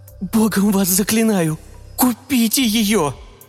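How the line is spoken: Pleading. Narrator (Russian): взмолился

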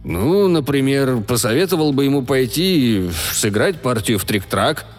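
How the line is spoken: Grumbling. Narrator (Russian): проворчал Реджет

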